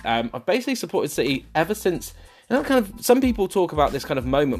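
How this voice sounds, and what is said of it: Mild southern West Country English accent. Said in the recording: “a kind of a southern accent or a West Country accent, which is kind of slightly not as strong as maybe some West Country accents”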